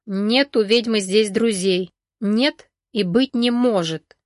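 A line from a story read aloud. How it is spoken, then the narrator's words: Through gritted teeth. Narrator (Russian): процедил сквозь зубы Данила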